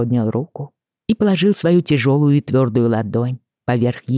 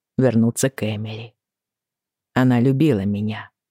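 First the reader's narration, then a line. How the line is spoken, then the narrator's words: Quiet. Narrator (Russian): сказал он тихо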